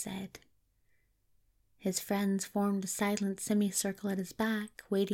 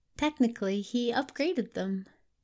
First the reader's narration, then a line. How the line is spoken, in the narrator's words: Anathema said cheerfully